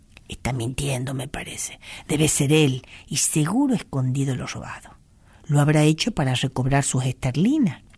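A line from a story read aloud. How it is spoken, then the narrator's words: Soft. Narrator (Spanish): le dijo suavemente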